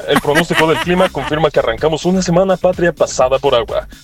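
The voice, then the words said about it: Radio announcer voice. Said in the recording (Spanish): “qué buena voz del ... Nos manda su voz de locutor”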